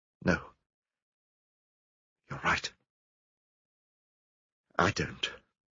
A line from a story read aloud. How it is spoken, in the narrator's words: Suddenly she muttered